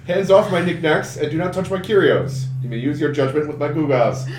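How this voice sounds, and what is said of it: Comic book guy character voice. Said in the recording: “It's very good, but you didn't do it with a Russian accent ... I was trying to be comic book guy”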